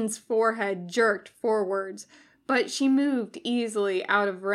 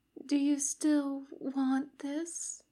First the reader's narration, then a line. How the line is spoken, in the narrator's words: She whispered in his ear